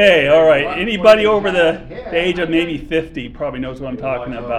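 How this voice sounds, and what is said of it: Usual voice. Nothing is said of it.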